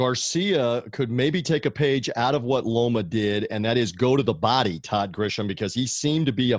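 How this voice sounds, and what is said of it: Usual voice. Nothing is said of it.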